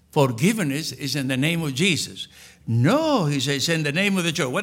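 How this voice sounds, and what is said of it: Strong, hard-to-follow accent. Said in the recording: “my accent is very difficult”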